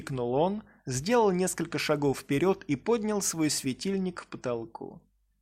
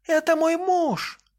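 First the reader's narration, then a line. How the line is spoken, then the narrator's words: Woman shrieking. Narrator (Russian): взвизгнула она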